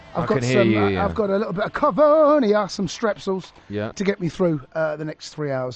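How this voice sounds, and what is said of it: Croaky, slightly hoarse voice. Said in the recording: “I've got a little bit of a frog in my throat. ... I've got a little bit of a cough, mate. ... the old throat ... you've got good reason to have a bad throat”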